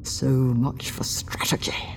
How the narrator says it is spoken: he said through gritted teeth

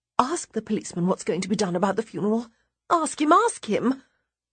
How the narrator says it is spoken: Sadie adds quickly

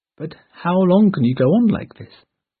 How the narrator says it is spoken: asked Eleanor

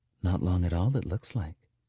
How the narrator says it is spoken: Kylie murmurs

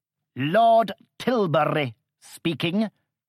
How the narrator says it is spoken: said curtly, emphasizing the first two words

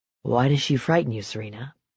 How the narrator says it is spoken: He asked softly

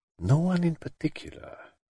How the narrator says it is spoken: he murmured to himself

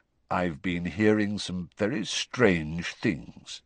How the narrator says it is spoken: he said slowly

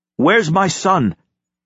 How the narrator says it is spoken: He called out abruptly

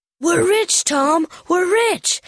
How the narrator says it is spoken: cried Huck

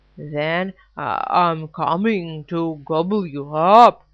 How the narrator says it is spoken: roared the Troll

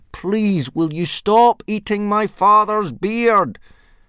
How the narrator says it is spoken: Hiccup yelled as loudly as he could

